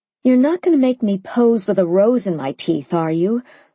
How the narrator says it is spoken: I sighed

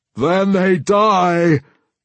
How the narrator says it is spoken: Bealtamatush roared

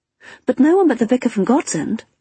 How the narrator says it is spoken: I said hastily

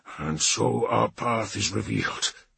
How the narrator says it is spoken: Bulvi murmured

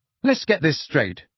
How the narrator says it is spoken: said Harry angrily

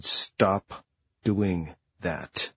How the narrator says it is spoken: Through clenched teeth, she said

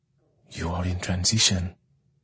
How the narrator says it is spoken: Anyanwu whisper

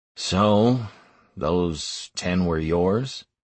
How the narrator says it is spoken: Hellfire finally muttered

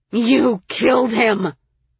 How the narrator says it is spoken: Liriana growled

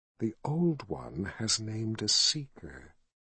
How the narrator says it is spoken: he whispered

